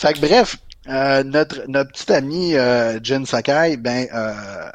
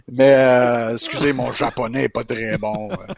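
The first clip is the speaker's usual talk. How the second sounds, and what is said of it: Mock Japanese accent sounding Russian. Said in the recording (French): “tu parles, comme Ivan Draco dans Rocky ... ton, accent, ton euh, accent japonais français ... japonais, français, russe”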